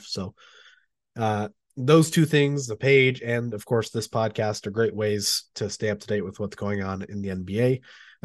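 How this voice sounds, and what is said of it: Sick, rough-sounding voice. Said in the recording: “my voice sounds terrible. And excuse me, I'm clearing my throat, have some coughs, feeling sick again”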